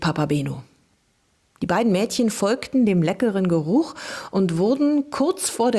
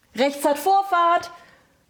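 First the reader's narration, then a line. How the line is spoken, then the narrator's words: Roaring. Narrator (German): brüllte er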